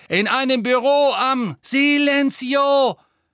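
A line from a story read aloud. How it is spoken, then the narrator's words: Shouting. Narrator (German): schrie Hermine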